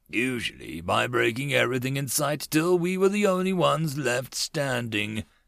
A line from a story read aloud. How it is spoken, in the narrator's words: Carnite chuckled